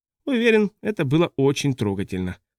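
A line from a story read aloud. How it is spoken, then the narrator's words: Dry. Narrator (Russian): сухо сказал Рэппл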